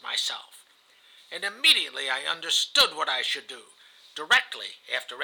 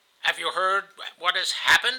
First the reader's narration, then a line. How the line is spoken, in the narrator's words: I asked him